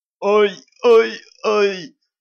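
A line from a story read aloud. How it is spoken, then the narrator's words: Fake thin whiny moaning. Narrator (Russian): начал старательно стонать Ланс противным тоненьким голоском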